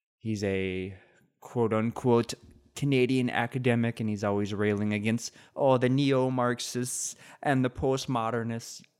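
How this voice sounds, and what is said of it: Put-on Irish accent. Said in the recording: “Why does he have an Irish accent? ... probably because I'm so used to doing an Irish accent”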